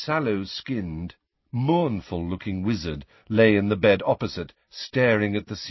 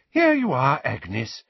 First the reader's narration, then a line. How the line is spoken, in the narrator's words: said the healer brightly